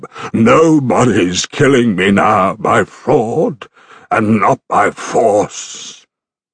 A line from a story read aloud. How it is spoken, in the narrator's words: Polyphemus bellowed back from his cave